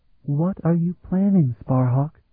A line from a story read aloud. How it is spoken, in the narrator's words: She murmured, her voice so near